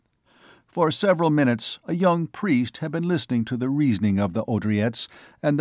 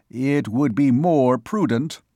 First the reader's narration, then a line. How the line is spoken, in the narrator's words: said Mr